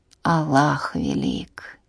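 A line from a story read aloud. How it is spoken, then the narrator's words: Muttering. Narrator (Russian): пробормотал Муса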